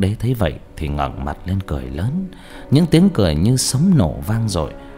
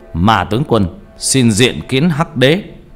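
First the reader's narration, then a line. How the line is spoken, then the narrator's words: Loud, resonant voice. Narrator (Vietnamese): Ông mà nói lớn bằng một giọng sang sảng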